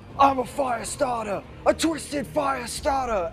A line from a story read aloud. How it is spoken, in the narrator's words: he's going to shout